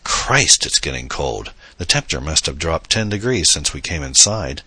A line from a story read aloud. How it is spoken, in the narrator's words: Adam exclaimed